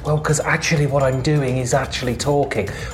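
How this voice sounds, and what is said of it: Theatrical stage whisper. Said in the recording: “I'm doing a stage whisper. I'm not actually whispering.”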